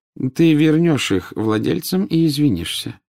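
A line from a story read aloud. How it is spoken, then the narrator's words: Calm. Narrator (Russian): спокойно сказал Дамблдор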